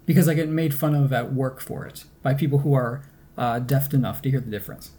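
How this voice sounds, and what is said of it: Nasal upstate New York accent. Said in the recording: “my Great Lakes accent ... those hard O's, like in dollar and socks ... upstate New York, Rochester, Buffalo kind of nasally accent that I have”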